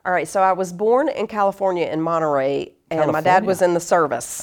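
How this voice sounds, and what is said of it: Southern American accent. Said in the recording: “your accent for everyone. You're from the South.”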